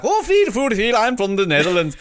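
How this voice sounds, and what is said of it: Mock Dutch accent, Swedish-chef-like. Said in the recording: “Dutch accent ... Dutch sound like they're speaking Elvish or something like that ... No, that's not how we sound ... you sound like the Swedish chef from the Muppets when you do that”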